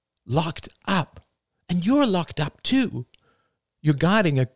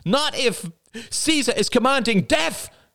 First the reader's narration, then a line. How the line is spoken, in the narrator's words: cried Rachel wildly